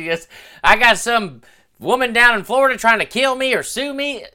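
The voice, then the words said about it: Imitates another person's voice. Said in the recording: “that Joe Exotic imitation? Because that was a little too good.”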